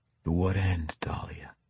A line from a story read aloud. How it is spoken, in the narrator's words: He asked quietly